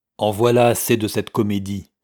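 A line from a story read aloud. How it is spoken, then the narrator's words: Harsh declaration. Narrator (French): signifia-t-il durement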